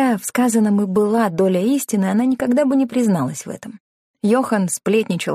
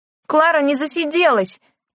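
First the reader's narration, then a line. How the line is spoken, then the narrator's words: Shouting. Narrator (Russian): прокричала Лена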